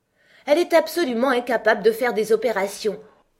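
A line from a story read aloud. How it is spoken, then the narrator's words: Loud exclamation in unison. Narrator (French): s'exclamèrent les deux reines en même temps d'une voix forte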